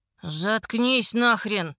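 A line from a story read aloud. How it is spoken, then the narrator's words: Muttering. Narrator (Russian): бормочет Колин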